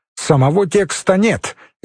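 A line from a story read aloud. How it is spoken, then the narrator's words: Sharp curt remark. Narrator (Russian): резко бросила Елизавета Михайловна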